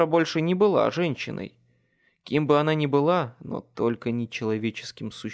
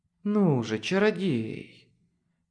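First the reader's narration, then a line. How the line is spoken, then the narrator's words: Hissed. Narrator (Russian): прошипела Мавра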